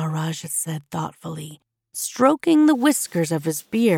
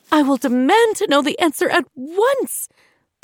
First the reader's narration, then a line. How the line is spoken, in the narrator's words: the queen shouted, more angry than scared